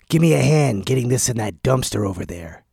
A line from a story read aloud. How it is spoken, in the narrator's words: snarled the man